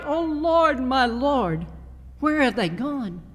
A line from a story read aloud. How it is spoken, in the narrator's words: he cried out, and his voice cracked